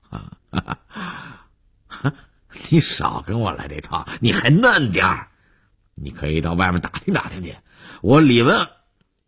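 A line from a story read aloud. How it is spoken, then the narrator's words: Laughing after a pause. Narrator (Chinese): 李文海愣了一下，又笑着说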